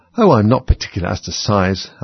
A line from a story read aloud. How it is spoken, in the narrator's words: Alice hastily replied